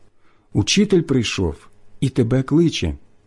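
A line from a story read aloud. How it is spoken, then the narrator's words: Whispered. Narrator (Ukrainian): каже пошепки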